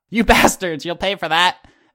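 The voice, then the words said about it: Put-on character accent, inconsistent. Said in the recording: “Missed the beginning of that sentence in my accent, but it came back at the end there.”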